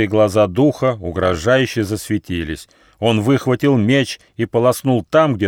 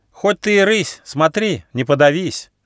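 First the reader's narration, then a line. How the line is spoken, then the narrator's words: Cheeky young squirrel shout. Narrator (Russian): дерзко крикнул бельчонок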